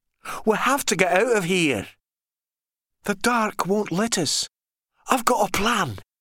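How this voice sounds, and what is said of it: Whispering. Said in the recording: “Mr. New was whispering to her through the bars”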